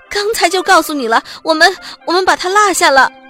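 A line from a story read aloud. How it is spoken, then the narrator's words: Loud question. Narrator (Chinese): 托马斯大声问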